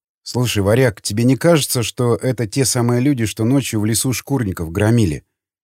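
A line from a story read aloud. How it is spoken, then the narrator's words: Quiet. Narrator (Russian): тихо произнес Николай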